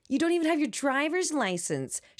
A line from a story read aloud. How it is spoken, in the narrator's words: practically screamed at me